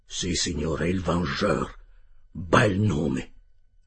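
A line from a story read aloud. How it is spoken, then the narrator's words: Murmur. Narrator (Italian): mormorò il capitano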